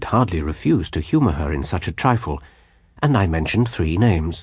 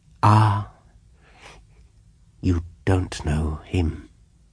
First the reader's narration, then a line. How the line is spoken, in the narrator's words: she said with a sigh of relief